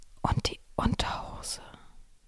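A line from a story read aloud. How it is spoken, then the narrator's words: Soft, almost whispered. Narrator (German): sagte ich leise, fast flüsternd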